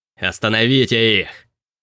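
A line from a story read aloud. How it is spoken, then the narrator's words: Growling. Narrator (Russian): прорычал Билли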